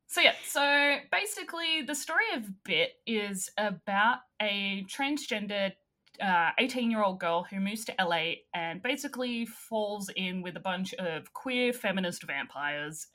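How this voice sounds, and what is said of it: Australian accent. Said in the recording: “with my accent, everything sounds horrible ... Australians”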